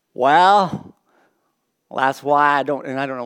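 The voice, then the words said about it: Put-on Texan accent. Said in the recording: “why did I do this accent? ... I'm sorry to you Texans out there.”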